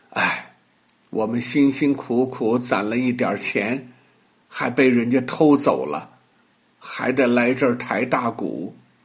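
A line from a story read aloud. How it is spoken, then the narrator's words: Sighing. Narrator (Chinese): 哥哥叹口气说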